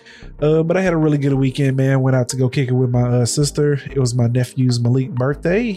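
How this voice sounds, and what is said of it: Nasal, stuffy-nosed voice. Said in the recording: “my sinuses have been kicking my ass... a little tad bit under the weather... Stuffy nose. So if I sound a little nasally”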